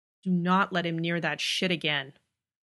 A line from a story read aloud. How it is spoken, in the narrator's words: growls Dean